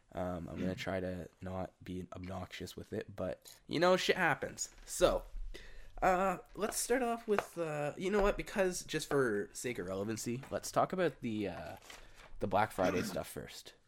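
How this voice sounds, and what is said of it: Congested voice from a cold. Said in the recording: “Sorry for my disgusting voice. I have a cold.”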